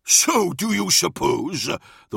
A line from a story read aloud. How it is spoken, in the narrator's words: the War Master chuckled